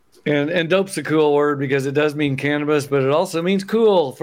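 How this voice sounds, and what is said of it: Oklahoma accent. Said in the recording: “if you notice my accent, I'm from Oklahoma.”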